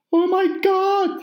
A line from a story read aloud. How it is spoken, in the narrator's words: cried